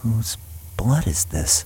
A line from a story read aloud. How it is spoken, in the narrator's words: Taylor asks himself with a whisper